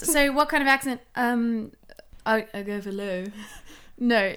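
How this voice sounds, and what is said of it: Put-on posh British accent. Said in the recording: “Oh, that sounded British. That sounded like posh British.”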